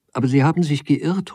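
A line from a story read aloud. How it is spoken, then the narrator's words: Dismayed exclamation. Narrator (German): ruft bestürzt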